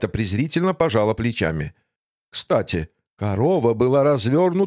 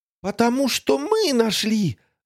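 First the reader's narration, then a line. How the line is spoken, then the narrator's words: Exclaiming. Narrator (Russian): воскликнула Тося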